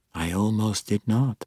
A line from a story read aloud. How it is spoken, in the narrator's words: he said quietly